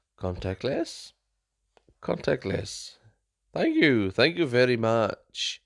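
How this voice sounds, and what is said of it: Mock French accent speaking English. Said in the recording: “I'm going to speak in a French accent ... I don't know what kind of accent that was”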